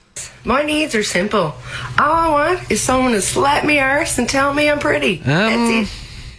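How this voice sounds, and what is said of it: Newfoundland woman's accent. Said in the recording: “nice, hot-sounding Newfie girl accent”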